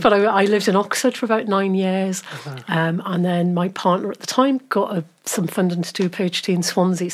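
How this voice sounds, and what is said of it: Geordie accent with Welsh tinge. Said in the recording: “There's definitely a twinge of Welsh accent in your accent... you're Geordie”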